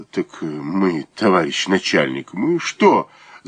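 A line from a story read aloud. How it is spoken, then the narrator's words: Wheezy woman's voice. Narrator (Russian): засипела баба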